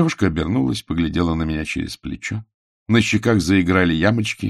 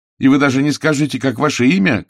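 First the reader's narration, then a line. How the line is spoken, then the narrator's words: Shout after someone. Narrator (Russian): крикнул я ей вслед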